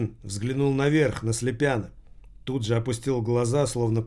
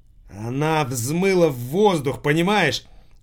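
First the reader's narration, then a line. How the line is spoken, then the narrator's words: Shouting. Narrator (Russian): Виктор кричал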